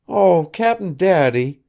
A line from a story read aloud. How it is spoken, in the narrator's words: she had once cried to Billy, when something had stirred her childish depths